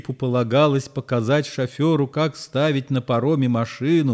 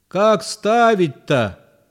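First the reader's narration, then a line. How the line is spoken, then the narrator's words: Shout. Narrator (Russian): крикнул шофер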